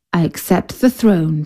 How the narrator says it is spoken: said Suleiman

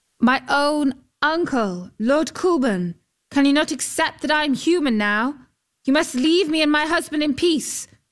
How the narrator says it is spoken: called out

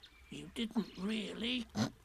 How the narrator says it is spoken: whispered Piglet to Pooh, so as to comfort him

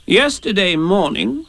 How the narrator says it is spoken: said Rabbit solemnly

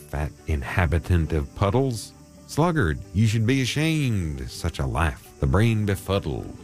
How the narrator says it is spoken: he exclaimed

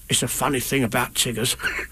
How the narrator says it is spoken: whispered Tigger to Roo

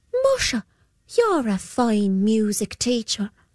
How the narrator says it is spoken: said the boy

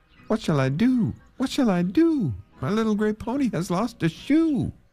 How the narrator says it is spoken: he cried again

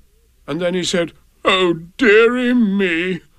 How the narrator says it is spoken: The King sobbed

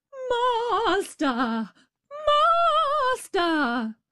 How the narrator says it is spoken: the harp cried out

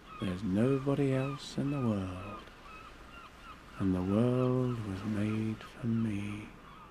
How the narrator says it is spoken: I'd say to myself as I looked so lazily down at the sea

